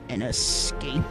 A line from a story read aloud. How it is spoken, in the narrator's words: The Sith Lord spoke the words in a low hiss